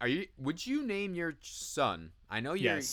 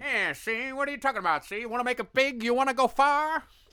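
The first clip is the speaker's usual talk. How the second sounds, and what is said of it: 1940s-style character accent. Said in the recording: “It's the accent, too ... the name itself evokes the 1940s”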